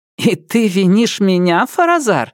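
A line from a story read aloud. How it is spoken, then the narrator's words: Laughing. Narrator (Russian): рассмеялась Нелит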